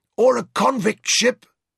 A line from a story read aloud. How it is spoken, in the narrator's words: Mansa said hoarsely